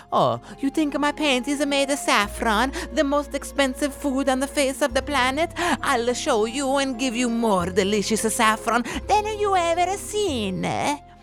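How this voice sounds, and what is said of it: Exaggerated put-on Italian accent. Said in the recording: “apologies to my Italian listeners for that accent.”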